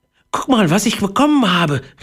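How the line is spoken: Excited exclamation. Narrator (German): rief er aufgeregt

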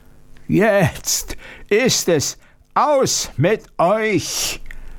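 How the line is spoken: Monster roaring. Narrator (German): brüllte das Ungeheuer

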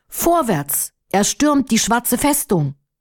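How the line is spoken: Brave leader shouting loudly. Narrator (German): Firuz, der tapfere Anführer des Menschenheeres, rief laut

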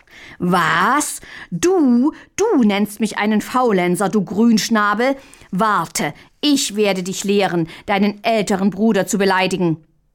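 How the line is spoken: Furious, pompous, louder roar. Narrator (German): wurde Mündlein rot von Kopf bis Fuß vor Wut, blähte sich wichtigtuerisch auf und brüllte noch lauter

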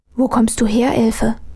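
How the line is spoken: Puzzled whisper. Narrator (German): flüsterte Armele verdutzt

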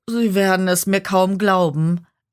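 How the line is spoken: Devil whining. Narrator (German): jammerte der Teufel

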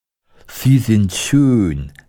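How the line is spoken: Scarecrow sighing. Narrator (German): seufzte der Scheuch

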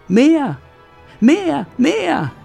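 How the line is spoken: Still screaming. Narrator (German): schreit immer noch

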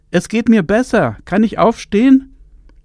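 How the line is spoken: Calling out. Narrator (German): rief sie

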